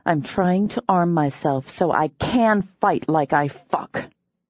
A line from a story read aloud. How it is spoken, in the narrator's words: I snapped